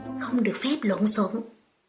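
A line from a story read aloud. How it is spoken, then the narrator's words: Quiet stern command. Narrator (Vietnamese): Vẻ mặt Lâm Tử Hàn đột nhiên sụp xuống, nhỏ giọng lệnh cho cô bé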